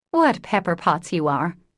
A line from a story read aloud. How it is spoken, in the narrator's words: sighed Joe